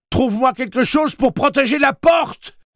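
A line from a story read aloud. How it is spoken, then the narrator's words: Yelled. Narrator (French): hurla Eddie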